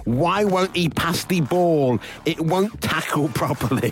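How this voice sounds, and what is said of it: Put-on West Country accent. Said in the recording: “I don't know why he's got a West Country accent”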